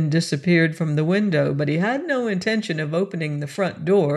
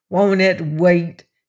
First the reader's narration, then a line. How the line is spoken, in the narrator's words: he snarled